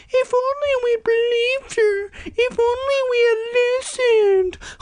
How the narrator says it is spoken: sitting mournfully, crying their little stupid eyes out, wailing

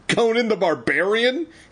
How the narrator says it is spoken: He cried, laughing

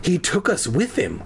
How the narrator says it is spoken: I murmured

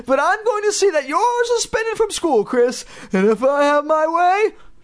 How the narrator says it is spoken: she sputtered

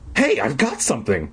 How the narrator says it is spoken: Mark cried excitedly

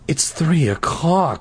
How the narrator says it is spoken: she cried

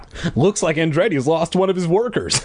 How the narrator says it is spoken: my dad laughed

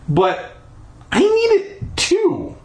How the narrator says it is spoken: I sputtered

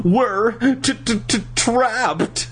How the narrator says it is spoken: Nicole stammered

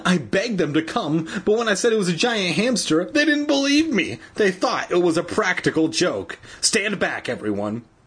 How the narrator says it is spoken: Evan cried shrilly

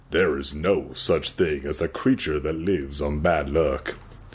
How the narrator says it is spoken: I said in a low voice

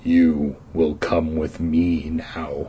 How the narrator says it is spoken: he growled

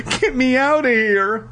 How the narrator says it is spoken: he cried

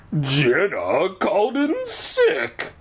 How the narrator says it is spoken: the warty guy growls

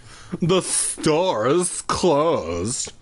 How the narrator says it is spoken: the man said through gritted teeth

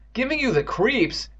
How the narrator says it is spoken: Evan cried

